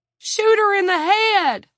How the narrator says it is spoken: Don screamed

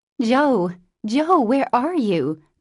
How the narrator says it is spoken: cried Meg

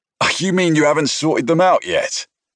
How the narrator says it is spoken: Gallagher snorted

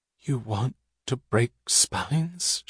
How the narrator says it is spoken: She whispered, trembling

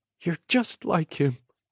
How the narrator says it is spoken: Mom whimpered

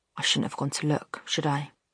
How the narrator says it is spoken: Jamie whispered to himself

